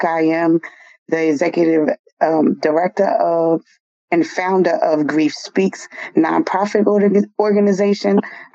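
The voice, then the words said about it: Voice affected, slightly off. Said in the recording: “excuse my voice. I think it's the allergies.”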